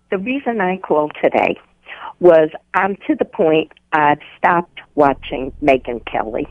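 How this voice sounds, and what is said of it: New York accent. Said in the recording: “You sound like a New Yorker that moved down to North Carolina ... your accent has not left you”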